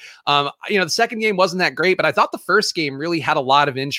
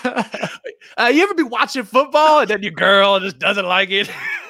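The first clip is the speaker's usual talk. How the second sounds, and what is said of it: Exaggerated comedic Def Jam-style voice. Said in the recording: “your Def Jam impression of your girlfriend ... It is honestly a very fun voice to do”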